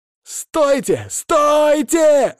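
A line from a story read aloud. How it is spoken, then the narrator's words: Shouting. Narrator (Russian): закричал он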